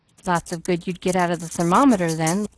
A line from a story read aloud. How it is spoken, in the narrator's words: laughed the man